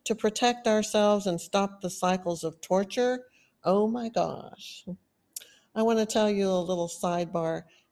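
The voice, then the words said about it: Texan accent. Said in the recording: “I was told that I have a Texas accent ... this really Texan accent that I have never noticed”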